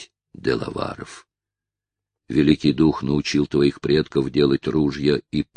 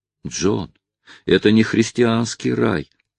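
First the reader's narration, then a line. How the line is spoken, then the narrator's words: Exclaiming woman. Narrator (Russian): воскликнула мисс Темпл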